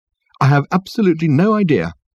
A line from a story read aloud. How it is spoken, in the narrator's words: said Reg brightly